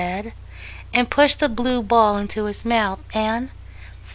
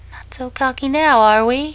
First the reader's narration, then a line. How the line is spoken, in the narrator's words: laughed out loud